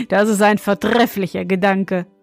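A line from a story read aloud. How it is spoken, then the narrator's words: Young king, laughing. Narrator (German): meinte der junge König und lachte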